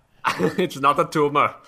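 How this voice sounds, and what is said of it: Arnold Schwarzenegger impression. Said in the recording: “do an Arnold Schwarzenegger impression”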